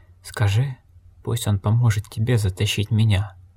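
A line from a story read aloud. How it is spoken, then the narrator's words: Whisper in ear. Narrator (Russian): прошептал Огерт палачу на ухо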